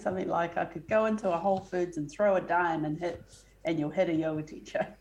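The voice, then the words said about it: Attempted American accent, possibly Texan. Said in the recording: “your accent ... it wasn't terrible ... American, and I tried to do an American accent ... is it like a Texan or something accent?”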